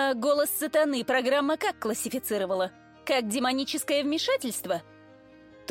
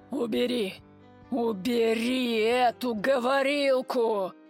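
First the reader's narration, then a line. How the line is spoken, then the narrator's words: Hissing. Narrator (Russian): прошипел он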